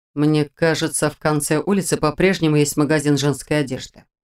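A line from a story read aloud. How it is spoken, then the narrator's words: Cold declaration. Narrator (Russian): холодно заявил голос Шелтера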